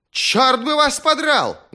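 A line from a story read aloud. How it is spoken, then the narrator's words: Furious yelling. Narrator (Russian): завопил парень, разъяренно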